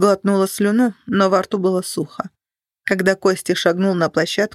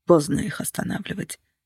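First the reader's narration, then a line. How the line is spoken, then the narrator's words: Quiet. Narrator (Russian): сказал он тихо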